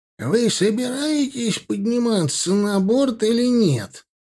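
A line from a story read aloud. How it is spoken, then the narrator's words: Nasal displeased voice. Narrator (Russian): Гнусавый недовольный голос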